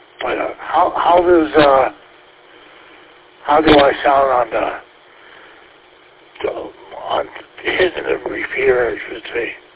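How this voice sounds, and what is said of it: Hoarse, strained voice. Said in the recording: “losing my voice here for some reason. By the air conditioning... When we turn the air on, I get lose my voice.”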